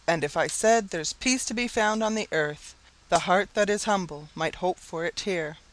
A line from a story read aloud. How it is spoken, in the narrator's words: one might truly exclaim with Moore